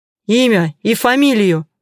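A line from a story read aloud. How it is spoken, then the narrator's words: Sharp bark. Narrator (Russian): Резко рявкнул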